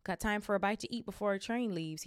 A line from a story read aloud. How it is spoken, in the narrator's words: said